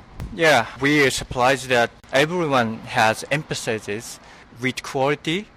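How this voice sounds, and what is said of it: Japanese accent. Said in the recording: “a Japanese accent”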